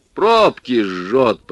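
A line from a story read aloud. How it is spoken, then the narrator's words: Deep bass, old man. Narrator (Russian): пробасил дед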